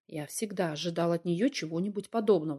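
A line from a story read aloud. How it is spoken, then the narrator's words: Plain. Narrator (Russian): сказал наконец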